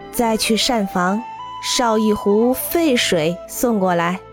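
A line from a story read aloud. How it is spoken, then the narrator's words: Smiling instruction, old monk. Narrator (Chinese): 老僧寺员微微一笑，吩咐门外的小和尚说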